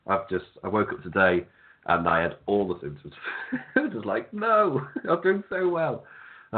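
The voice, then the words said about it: Congested, sniffly voice. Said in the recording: “there will be lots of sniffling during this ... It's a constant runner ... my voice hasn't gone. I can feel it's a bit weird. My voice isn't quite 100%”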